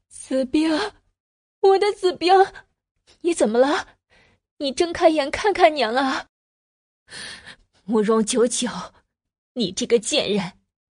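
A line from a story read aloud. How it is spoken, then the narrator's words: Crying woman. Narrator (Chinese): 林氏，哭道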